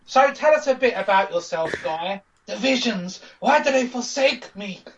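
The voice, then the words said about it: Strange put-on character voice. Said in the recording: “my voice is a bit strange”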